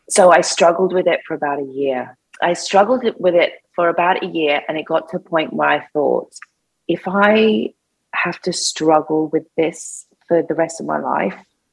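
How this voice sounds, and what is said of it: Emotional, voice close to tears. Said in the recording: “I'm going to get a bit emotional.”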